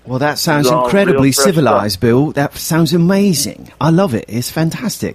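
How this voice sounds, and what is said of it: Put-on British accent. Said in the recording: “I don't know why I'm talking in an accent, but I just you said civilized, so I decided to start talking as a British person.”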